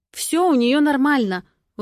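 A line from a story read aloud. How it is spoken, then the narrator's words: Indignant retort. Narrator (Russian): возмущенно бросаю я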